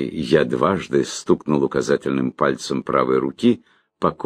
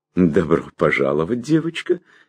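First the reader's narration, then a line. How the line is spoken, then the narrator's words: Cheerful woman. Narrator (Russian): весело сказала моя собеседница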